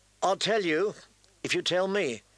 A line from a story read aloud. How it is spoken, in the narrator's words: she said wearily